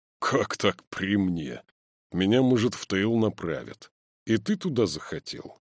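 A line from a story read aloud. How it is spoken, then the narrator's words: Mocking question. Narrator (Russian): он спросит уже насмешливо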